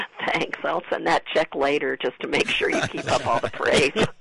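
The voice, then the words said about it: Raspy, husky voice like Lucille Ball. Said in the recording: “apologize for my voice, so you know I'm going for that, you know, sexy raspy thing ... Sounds a little like Lucille Ball a little bit”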